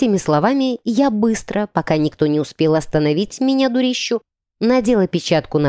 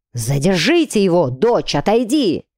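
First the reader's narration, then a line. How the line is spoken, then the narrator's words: Father barking. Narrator (Russian): гаркнул отец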